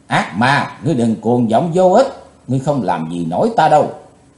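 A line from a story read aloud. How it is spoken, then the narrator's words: Cold shout. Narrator (Vietnamese): Chí Tôn lạnh lùng thét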